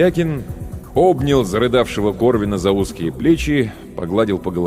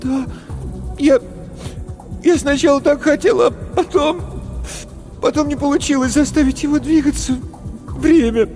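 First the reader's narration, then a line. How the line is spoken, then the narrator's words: Sobbing. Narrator (Russian): Корвин всхлипнул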